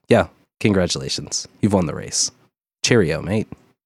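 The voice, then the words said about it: Put-on British accent. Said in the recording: “Probably in a British accent.”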